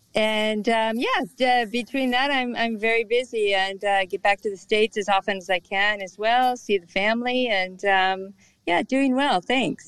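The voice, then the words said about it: American, Californian accent. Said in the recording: “as you can tell by her accent, very American, very California”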